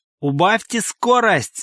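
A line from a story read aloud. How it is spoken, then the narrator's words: Shouting. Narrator (Russian): закричал он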